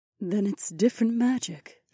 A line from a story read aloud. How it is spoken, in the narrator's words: Aliona murmured